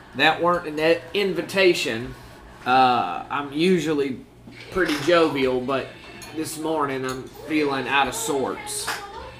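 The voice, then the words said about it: Southern drawl character voice. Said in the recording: “Trovis has a southern drawl.”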